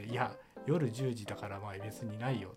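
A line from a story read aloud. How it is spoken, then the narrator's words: Plain. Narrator (Japanese): って言って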